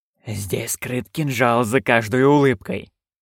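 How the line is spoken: Hiss. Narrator (Russian): прошипел

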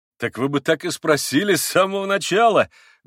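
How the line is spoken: Loud laughter. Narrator (Russian): громко рассмеялся Митя

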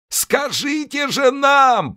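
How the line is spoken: Offended shout. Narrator (Russian): прокричал человек, попросту разобиженный

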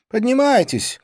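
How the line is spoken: Shouted. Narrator (Russian): крикнула она

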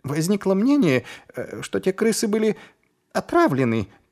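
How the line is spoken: Squeak. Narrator (Russian): пискнул Шнобби

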